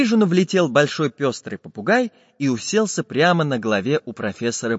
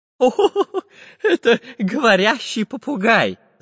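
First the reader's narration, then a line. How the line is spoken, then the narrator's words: Laughing. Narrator (Russian): засмеялся профессор Пыхтелкин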